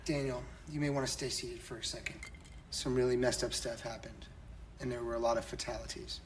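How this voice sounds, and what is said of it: Exaggeratedly serious tone. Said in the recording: “You're putting your serious voice on”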